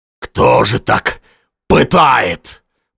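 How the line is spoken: Groaning. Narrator (Russian): простонал он, обратясь к Ушакову

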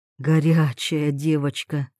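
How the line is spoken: Breathy close murmur. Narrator (Russian): выдохнул Тарас, прижимаясь ртом к ушку

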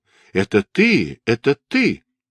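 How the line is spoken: Exclamation. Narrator (Russian): Шасен воскликнул

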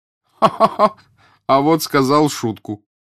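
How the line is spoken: Hearty cheerful laughter. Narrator (Russian): Француз весело сангвинически расхохотался

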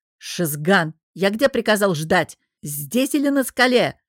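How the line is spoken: Bellowed at full voice. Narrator (Russian): гаркнул во все горло лорд Аздиш

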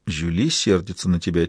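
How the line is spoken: Quiet. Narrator (Russian): тихо сказала она

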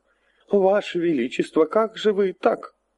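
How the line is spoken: Exclaimed. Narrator (Russian): воскликнул плешивый флигель-адъютант

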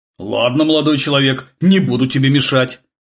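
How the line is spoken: Grumbled. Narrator (Russian): проворчал Глеб

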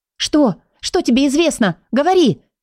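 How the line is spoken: Urgent shout. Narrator (Russian): крикнула наследная принцесса

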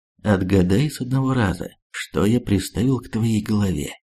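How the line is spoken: Calm voice. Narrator (Russian): спокойным голосом сказал

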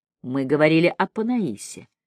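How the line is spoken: Gentle reminder. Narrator (Russian): мягко напомнил Мэлори

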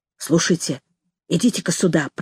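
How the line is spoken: Whisper. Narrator (Russian): прошептал он

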